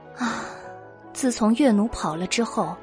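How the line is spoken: Sighing. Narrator (Chinese): 嫦娥叹了一口气，说道

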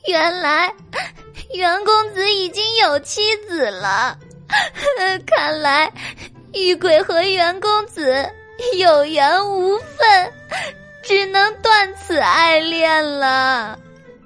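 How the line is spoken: Heartbroken crying. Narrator (Chinese): 花狸猫 万分伤心的哭道

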